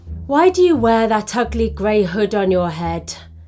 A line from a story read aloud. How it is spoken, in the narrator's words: sighed